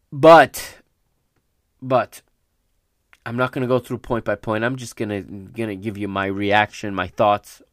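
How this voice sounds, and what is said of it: Raspy, recovering voice. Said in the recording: “My voice is starting to get raspy ... my voice is still recovering”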